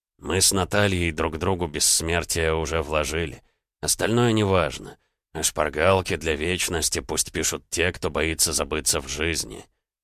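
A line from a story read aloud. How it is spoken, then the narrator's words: Quiet near-whisper, still audible. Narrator (Russian): тихо, почти шепотом, но так, чтобы услышали все, сказал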